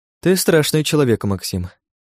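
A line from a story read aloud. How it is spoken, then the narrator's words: After laughing, predatory woman. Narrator (Russian): отсмеявшись, произнесла хищница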